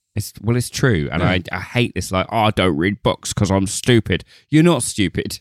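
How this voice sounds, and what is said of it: Posh English accent. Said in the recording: “It's just your accent that's posh.”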